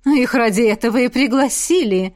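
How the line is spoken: Snorting. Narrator (Russian): фыркнула Элисандра

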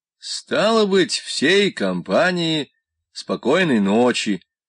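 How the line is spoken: Hoarse interrupting voice. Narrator (Russian): прервал вечно хриплый голос главного оператора

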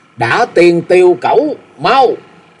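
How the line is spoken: Loud command. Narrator (Vietnamese): lớn tiếng hạ lệnh

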